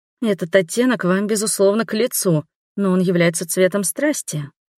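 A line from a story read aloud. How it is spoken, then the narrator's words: Soft. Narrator (Russian): мягко проговорила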